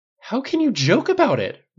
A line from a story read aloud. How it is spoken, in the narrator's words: Rogers cried